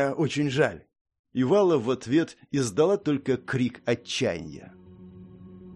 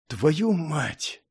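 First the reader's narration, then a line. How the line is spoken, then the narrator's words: Whisper through cracked lips. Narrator (Russian): прошептал Авер, едва разлепив покрытые коркой из крови и грязи губы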